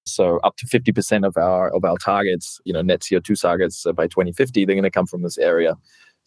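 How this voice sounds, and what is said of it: New Zealand accent. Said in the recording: “that makes a lot more sense with your accent”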